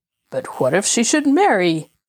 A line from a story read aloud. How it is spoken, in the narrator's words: exclaimed the king, in sudden consternation at the idea